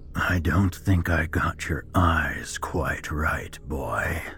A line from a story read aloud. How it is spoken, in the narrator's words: he mocked in a raspy voice